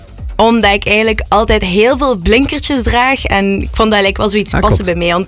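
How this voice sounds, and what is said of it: Slight Ghent Flemish accent. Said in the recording (Dutch): “Ik hoor ook een beetje een Gentse accent.”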